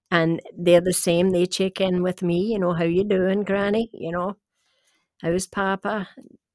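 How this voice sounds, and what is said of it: Scottish accent. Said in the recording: “the little blonde lady with a Scottish accent”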